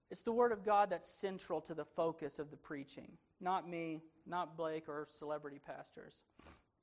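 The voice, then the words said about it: Southern accent. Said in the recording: “I got some southern accent in my Greek.”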